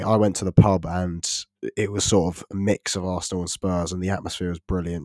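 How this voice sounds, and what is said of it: Sick, unwell-sounding voice. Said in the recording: “You can probably tell from my voice, I'm still quite ill”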